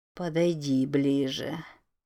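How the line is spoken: Purring. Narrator (Russian): промурлыкало оно

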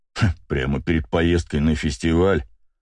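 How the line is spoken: Sarcastic snort. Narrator (Russian): саркастично хмыкнул бегемот

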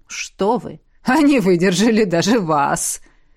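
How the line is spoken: Laughing. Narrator (Russian): Рассмеялся Вейриен

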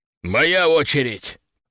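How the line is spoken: Growling. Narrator (Russian): прорычал

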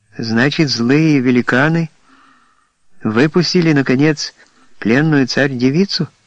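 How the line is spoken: Inquisitive child's question. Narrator (Russian): Продолжал спрашивать мальчик пытливым тоном

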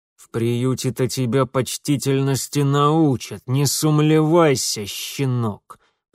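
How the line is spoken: Through gritted teeth. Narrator (Russian): процедил тот

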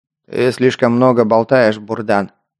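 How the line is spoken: Jailer's growl. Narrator (Russian): рыкнул тюремщик

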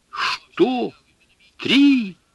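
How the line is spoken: Horrified exclamation. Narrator (Russian): воскликнул он в ужасе

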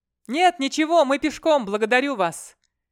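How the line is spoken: Shouting from the hillside. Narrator (Russian): кричал тот с полугоры

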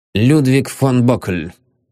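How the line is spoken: Weary. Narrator (Russian): устало выговорил он

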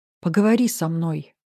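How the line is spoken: Quiet plea. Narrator (Russian): попросила я тихо

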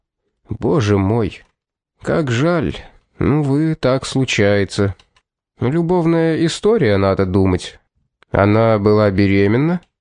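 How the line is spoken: Sigh. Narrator (Russian): он вздохнул

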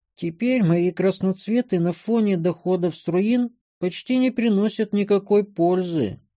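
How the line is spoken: Sad sigh, female gnome. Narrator (Russian): вздохнула гномка печально

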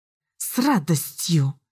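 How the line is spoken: Through clenched teeth. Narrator (Russian): процедила сквозь стиснутые зубы Элис

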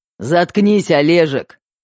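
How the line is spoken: Barked. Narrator (Russian): рявкнул Мэтт

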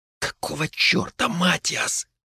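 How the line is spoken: Hissed. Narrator (Russian): прошипела она

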